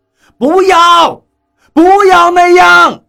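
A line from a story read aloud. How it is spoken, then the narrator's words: Anxious shouting. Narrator (Chinese): 我着急地对那几个人喊叫道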